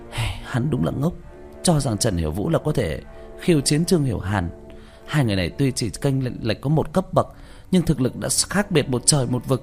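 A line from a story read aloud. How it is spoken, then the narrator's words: Sighing. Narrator (Vietnamese): Diệu Tâm thở dài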